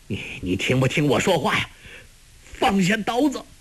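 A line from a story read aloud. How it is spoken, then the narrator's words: Angry. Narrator (Chinese): 焦木怒道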